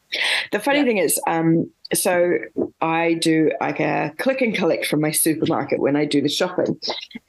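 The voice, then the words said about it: Slightly congested voice, has a cold. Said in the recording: “If you can't already hear, I've got a little bit of a cold”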